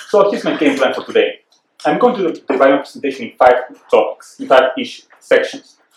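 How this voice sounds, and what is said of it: Distinctive Peruvian Spanish accent. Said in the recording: “I am Peruvian, which means I've been blessed and cursed with a very distinctive accent.”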